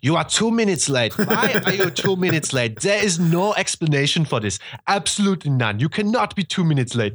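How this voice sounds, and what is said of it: Convincing put-on German accent. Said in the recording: “that's a good accent, actually. ... This is how I speak German, actually. ... That's pretty spot on, I would say.”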